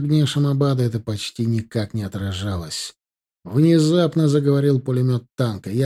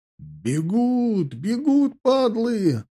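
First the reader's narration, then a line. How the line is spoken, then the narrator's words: Joyful shout. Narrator (Russian): радостно закричал Малюга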